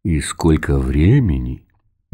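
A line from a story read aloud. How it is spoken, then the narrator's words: Soft inquiry. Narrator (Russian): мягко поинтересовался Рихард Рахенрау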